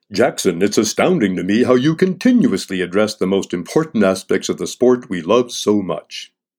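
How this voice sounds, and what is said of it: Announcer-style radio voice. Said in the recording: “shift to my radio voice”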